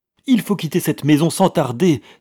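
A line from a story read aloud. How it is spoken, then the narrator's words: Breathless exclamation. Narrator (French): s'écria-t-elle sans reprendre haleine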